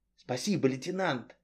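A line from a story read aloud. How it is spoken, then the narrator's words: Whispering. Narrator (Russian): зашептал Намаконов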